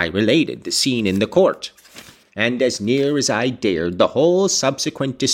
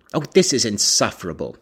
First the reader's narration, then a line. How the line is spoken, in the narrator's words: he exclaimed